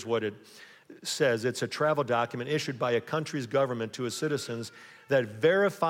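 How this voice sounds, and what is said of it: Usual voice. Nothing is said of it.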